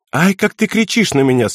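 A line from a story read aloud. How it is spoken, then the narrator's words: Girl laughing. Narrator (Russian): смеялась девушка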